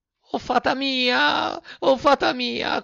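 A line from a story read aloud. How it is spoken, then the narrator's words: Puppet screaming. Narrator (Italian): cominciò a strillare il burattino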